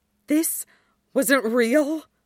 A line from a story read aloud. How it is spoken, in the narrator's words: Styles pants